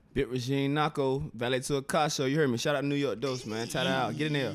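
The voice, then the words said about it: Heavy Virginia accent. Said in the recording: “Heavy accent.”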